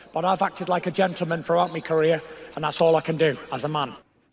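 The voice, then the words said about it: Gypsy Traveller accent. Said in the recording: “The accent? ... Yeah, I love the accent. How good. ... He's a gypsy joker.”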